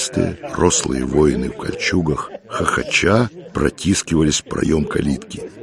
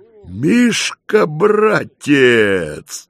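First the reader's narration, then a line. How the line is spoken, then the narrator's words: Loud yell. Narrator (Russian): завопил богатырь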